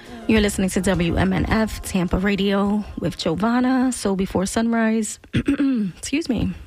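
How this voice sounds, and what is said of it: Slightly cracking voice. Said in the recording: “my voice is a little cracky there, a little cracky.”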